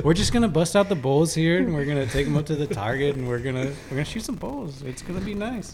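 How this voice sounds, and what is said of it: Put-on Canadian accent. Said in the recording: “I like threw a Canadian accent ... It just sounds like bulls”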